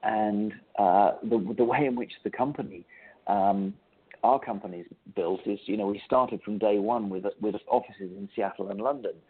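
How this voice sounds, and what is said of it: English accent. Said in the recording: “you can tell by my accent that I'm originally from England”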